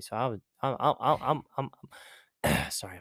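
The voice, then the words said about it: Stuttering, repeating words. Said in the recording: “I'm stuttering ... my mind gets going a little faster than my mouth can keep up with”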